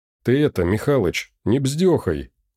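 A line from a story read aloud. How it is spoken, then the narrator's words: Mournful. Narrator (Russian): Сказал он скорбно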